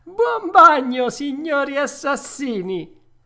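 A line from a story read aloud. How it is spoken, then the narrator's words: Laughing shout while running. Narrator (Italian): Pinocchio, urlò ridendo e seguitando a correre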